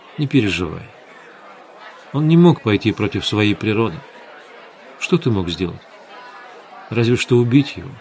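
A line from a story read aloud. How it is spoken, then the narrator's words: Quiet, soothing. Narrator (Russian): Светлана тихо сказала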